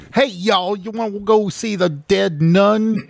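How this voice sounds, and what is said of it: Exaggerated Southern hick accent. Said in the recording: “What the fuck accent was that? ... was going for southern hick as hell, but I don't know.”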